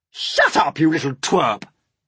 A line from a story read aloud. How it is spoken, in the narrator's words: Aunt Spiker snapped